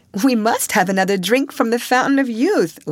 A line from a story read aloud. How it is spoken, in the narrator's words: laughed Alice